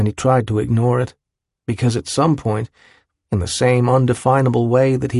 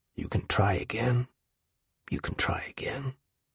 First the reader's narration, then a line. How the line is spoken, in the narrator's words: the voice, which whispered to him